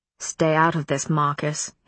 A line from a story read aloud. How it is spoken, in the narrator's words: his father snarled